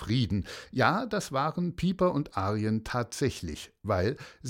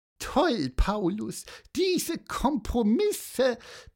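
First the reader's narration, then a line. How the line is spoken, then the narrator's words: Squeaky voice. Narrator (German): piepste Piper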